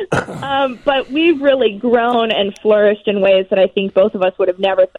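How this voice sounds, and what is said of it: Chicago accent. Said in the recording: “Chicago will always have my heart, and I can't tell you how many people start the conversation talking about my accent here.”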